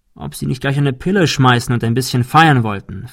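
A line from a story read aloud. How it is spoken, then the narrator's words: Plain. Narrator (German): fragte Mike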